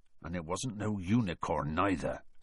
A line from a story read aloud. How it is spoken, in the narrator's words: said Hagrid grimly